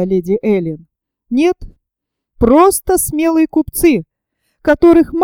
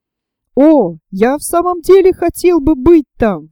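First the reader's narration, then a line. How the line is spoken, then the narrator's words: Exclamation. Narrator (Russian): воскликнул Роберт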